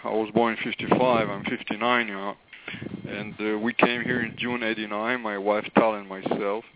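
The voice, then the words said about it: Israeli accent. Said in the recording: “I was born in Haifa, Israel, and this is where my accent is from.”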